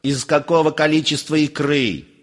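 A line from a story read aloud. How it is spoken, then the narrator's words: Enraged shout. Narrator (Russian): Вновь взбеленясь, закричал Персиков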